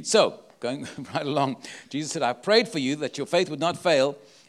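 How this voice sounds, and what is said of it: Speaks with a noticeable accent. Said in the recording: “Can you understand my accent? They tell me I have an accent.”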